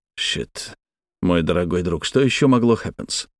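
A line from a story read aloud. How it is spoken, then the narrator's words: Grumble. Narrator (Russian): буркнул я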